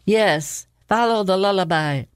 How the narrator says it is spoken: he shouted

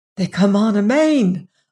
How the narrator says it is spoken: I gasped

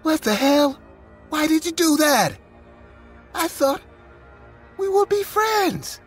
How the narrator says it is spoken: But utterly grossed and furious, I screamed

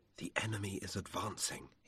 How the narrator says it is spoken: he whispered

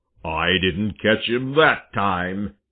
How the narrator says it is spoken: he growled

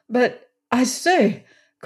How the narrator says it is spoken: cried Lorne

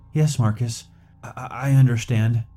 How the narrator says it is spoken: I stammered

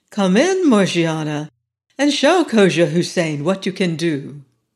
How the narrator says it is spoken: Ali Baba said kindly

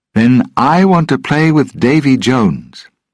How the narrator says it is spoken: Will said loudly

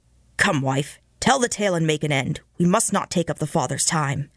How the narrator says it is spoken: Master Grimston said harshly

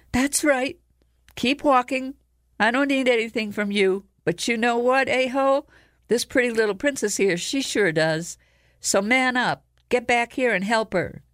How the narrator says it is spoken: Kira yelled

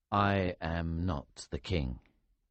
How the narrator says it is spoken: I said sadly

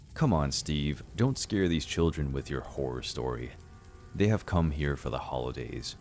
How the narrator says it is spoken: Grandma said in a serious tone

